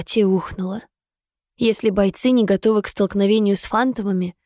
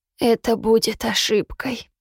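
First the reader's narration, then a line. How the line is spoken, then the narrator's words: Hopeless wheeze. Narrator (Russian): в безысходности просипел Болт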